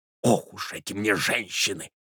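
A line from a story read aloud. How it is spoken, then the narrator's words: Whisper. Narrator (Russian): прошептал Иван Андреевич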